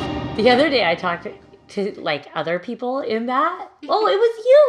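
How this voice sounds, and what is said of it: Usual voice. Nothing is said of it.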